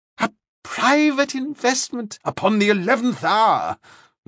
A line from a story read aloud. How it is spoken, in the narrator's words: Lauderback exclaimed